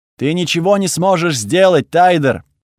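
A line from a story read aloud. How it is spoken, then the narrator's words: Shouting. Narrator (Russian): выкрикнула Тхаги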